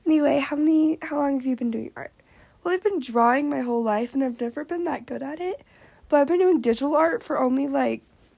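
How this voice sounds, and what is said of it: Squeaky and raspy voice. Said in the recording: “what is happening with my voice? ... It's, like, really squeaky and raspy at the same time.”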